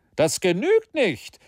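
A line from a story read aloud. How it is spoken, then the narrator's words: Impetuous shout. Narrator (German): rief Maston ungestüm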